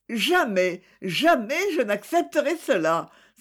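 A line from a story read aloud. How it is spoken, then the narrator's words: Exclaimed. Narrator (French): s'écria-t-elle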